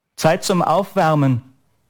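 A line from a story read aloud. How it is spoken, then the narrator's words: Bellowing across hall. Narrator (German): brüllte der Sportlehrer durch die Halle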